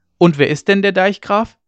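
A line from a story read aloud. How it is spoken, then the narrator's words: Calling out again. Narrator (German): rief Ole Hensen wieder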